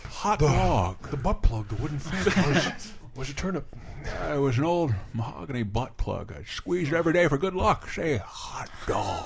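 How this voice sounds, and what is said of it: Imitates another person's voice, tired. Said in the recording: “my Garrison Keillor impression is a tired Jimmy Stewart ... Channel a tired Jimmy Stewart when you're doing your Garrison Keillor”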